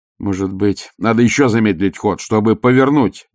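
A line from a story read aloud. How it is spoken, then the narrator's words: Exclamation. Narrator (Russian): воскликнул астронавигатор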